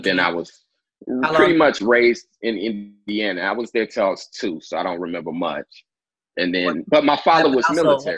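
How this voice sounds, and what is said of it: Southern American accent. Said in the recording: “I lived in Georgia 8 years, too, so that's probably where the accent comes from”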